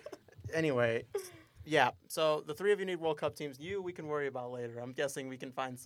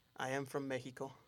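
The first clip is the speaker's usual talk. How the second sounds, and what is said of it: Put-on Mexican accent. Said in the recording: “say it, I am from Mexico, but in a Mexican accent.”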